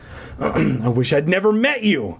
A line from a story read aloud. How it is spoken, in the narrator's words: I cried angrily